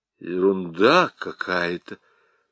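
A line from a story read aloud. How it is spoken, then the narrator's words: Mutter. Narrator (Russian): пробормотал Ермолкин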